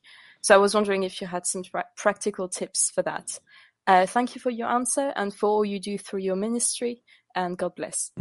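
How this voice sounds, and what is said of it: European-accented English. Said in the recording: “you have a beautiful voice and great English and a wonderful accent ... you're European”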